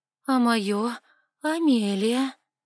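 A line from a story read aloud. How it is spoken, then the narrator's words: Drawn-out voice. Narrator (Russian): протянула я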